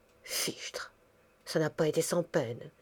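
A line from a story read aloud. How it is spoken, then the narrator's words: Murmur. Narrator (French): murmura Madame Gabin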